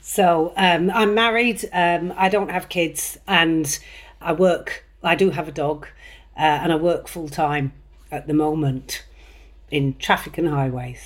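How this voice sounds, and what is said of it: West Country English accent. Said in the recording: “I've ended up with a West Country accent”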